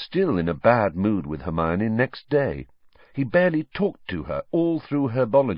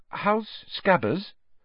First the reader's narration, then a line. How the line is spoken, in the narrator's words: Hermione asked timidly